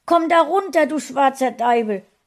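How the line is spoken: Angry shout. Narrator (German): rief sie wütend

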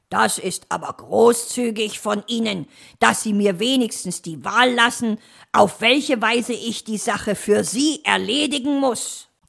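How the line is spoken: Growling. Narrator (German): knurrte er

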